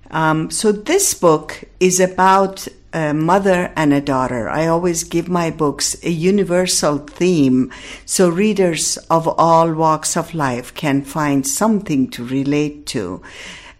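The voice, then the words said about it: Persian accent in English. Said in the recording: “my Iranian-ness will always be there, as you can hear it in my voice and accent.”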